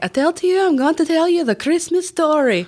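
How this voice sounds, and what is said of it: Put-on accent. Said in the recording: “When I'm working with kids, I use an accent though ... Like I have this whole accent that I can use and I can use it so well that the people on the train, they were like, where are you from?”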